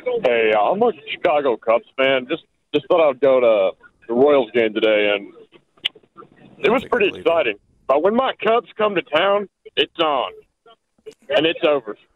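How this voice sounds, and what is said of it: Put-on fake accent. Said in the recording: “I think you're fake. I think you're doing a whole thing... I think he's just doing an accent to listen to himself on the radio”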